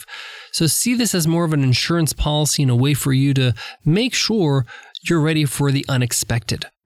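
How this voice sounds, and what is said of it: Slightly off, nasally voice. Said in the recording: “my voice is a little bit off. I've been under the weather for the last few days ... a bit of a nasally sound today”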